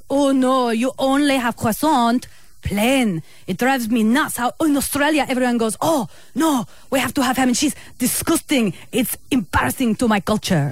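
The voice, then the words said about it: Put-on foreign accent, poorly done. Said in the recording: “with that accent, which was horrible ... I gave it a crack ... it was a good, good effort”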